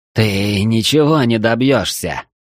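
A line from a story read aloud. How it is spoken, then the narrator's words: Witch growling. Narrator (Russian): прорычала ведьма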